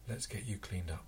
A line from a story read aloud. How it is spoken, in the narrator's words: Quietly, she said